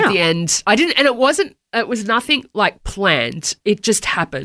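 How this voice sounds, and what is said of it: Usual voice. Nothing is said of it.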